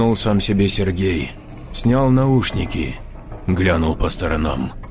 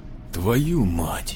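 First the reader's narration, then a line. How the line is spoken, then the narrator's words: Quiet curse. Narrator (Russian): тихо выругался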